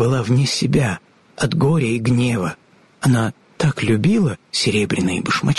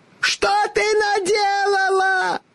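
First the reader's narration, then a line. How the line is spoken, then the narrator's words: Shrieking woman. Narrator (Russian): завизжала волшебница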